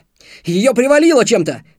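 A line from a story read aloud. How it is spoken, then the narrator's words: Shouted. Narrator (Russian): крикнул Антон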